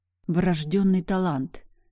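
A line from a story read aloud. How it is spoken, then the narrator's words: Venomous, through teeth. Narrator (Russian): ядовито процедила я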